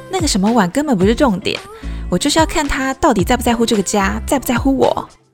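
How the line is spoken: Sighing. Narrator (Chinese): 她叹了一口气说

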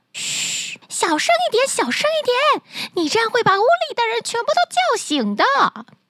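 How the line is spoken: Startled, hurried. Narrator (Chinese): 听到汤姆的叫声，两个小偷大吃一惊，急忙说道

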